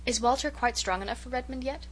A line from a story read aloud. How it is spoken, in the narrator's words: queried Miss Cornelia anxiously